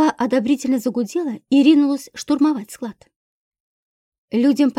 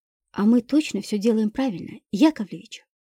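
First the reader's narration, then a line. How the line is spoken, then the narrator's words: Old man whispering. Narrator (Russian): шепнул председателю старик Макаров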